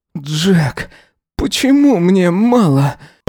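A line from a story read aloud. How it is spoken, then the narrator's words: Moaning. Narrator (Russian): Простонал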